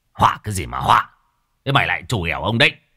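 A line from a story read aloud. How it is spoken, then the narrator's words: Old man shouting. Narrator (Vietnamese): Lão quát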